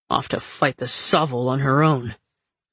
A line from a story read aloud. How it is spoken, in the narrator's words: Fox growled, his frustration bleeding through